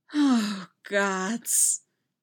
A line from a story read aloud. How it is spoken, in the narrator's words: Poe sighs happily